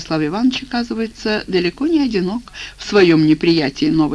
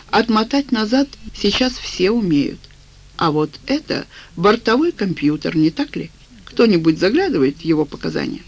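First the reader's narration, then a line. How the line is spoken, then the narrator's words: Sigh. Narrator (Russian): Федосей Сергеевич вздохнул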